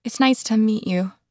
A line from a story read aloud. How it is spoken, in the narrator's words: I said nervously